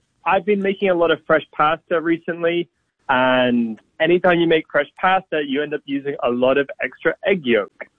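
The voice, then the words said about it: Slight mixed British-Australian accent. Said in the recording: “I hear a little accent there.”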